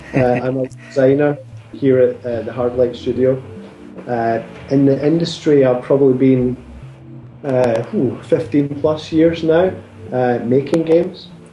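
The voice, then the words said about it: Scottish accent. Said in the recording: “I'm Scottish, so if you struggle with the accent, I do apologise.”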